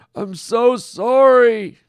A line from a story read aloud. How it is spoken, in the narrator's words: Norm wailed